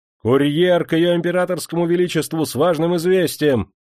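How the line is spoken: Shouting. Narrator (Russian): закричал Николай Никитич

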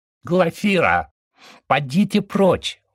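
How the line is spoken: High-voiced command, chubby man. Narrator (Russian): высоким голосом скомандовал толстячок

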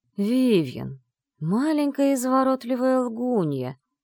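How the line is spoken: Silky, insinuating. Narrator (Russian): вкрадчиво произнес

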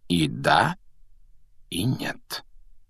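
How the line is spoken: Quiet remark. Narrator (Russian): негромко заметил Дамблдор

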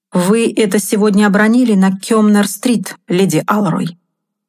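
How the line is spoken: Calm. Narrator (Russian): сказал я совсем спокойно

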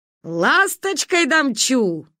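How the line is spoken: Shouting. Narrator (Russian): закричал Ануш Иван Наполеонович

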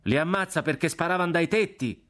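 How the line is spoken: Shouted by another voice. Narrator (Italian): gridò un'altra voce

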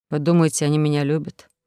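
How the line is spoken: Sad question. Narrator (Russian): грустно спросил Арсений

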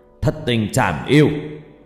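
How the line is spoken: Old person's shout. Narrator (Vietnamese): Cụ hét lên

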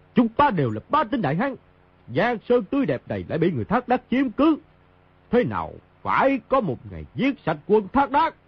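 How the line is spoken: Loud shout. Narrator (Vietnamese): Mao Thập Bát quát lớn

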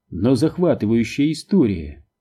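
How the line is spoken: Mocking retort mimicking father. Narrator (Russian): возразила, насмешливо копируя слова отца

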